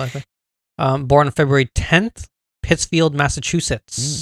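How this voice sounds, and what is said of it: Usual voice. Nothing is said of it.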